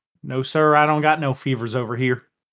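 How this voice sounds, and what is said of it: Put-on Southern country accent. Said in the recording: “this country accent ... the best country accent ... ever had”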